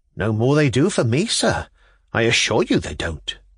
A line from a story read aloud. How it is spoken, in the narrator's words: said Pavel Pavlovich anxiously